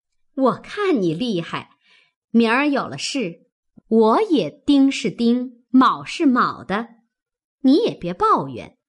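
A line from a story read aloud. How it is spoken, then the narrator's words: Laughing. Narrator (Chinese): 凤姐儿笑道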